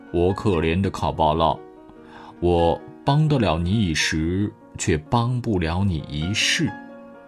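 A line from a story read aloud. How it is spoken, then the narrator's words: Deep sigh. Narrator (Chinese): 猫深深地叹了一口气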